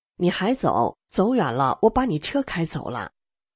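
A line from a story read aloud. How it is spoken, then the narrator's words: Joking. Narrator (Chinese): 我和他开玩笑说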